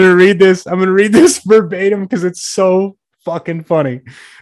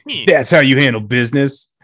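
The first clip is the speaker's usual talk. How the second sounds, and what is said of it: Put-on voice for a quoted person. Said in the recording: “I shouldn't give him that voice... this is how he sounds in my head”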